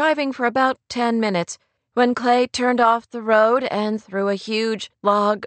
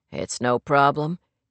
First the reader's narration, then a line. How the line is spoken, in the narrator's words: Clay murmured, concentrating on his driving